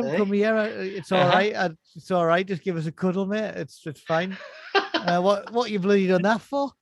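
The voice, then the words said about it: Put-on Australian accent. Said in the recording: “Mixed with the Australian accent as well.”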